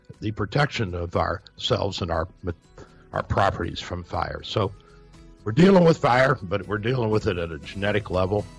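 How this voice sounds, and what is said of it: Strained, fading voice. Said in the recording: “I'm losing my voice here, guys”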